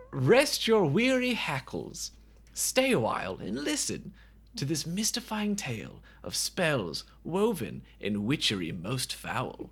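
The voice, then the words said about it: Put-on British accent. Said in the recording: “Nobody in this movie has a British accent. I don't know why I'm doing this.”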